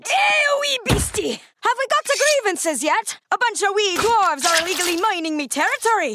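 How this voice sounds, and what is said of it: Put-on accent. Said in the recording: “Your accent”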